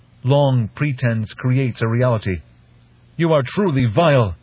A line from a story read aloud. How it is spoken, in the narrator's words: A captive fish speaker had shouted at a Tlilazu master